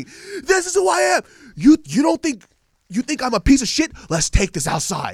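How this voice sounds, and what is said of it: Screaming angrily. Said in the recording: “what he's screaming”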